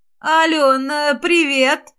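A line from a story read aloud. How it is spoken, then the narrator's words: Ingratiating voice. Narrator (Russian): начала она заискивающим голосом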